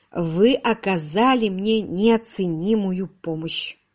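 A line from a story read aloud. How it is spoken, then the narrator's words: Plain. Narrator (Russian): сказал Родерик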